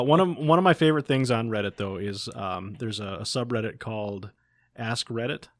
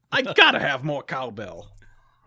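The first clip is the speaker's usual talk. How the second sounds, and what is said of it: Poor imitation of another person's voice. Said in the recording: “let's say you're Christopher Walken... Christopher Walken impersonation... Not even close, guys. Just terrible.”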